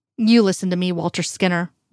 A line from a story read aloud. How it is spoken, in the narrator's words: Reyes said sharply